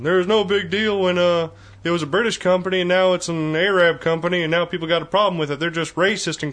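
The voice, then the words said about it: Texan-accented impression of a politician. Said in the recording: “my George Bush impersonation ... Why does your George Bush impersonation sound more like Hank Hill? ... They're, they're all Texans.”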